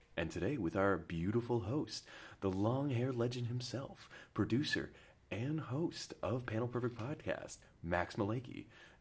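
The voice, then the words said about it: Smooth announcer-style radio voice. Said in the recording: “You got a great radio voice, by the way. ... Listening to it, I was just like in a trance.”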